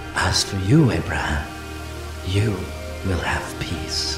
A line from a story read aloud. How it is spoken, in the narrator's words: God spoke tenderly to him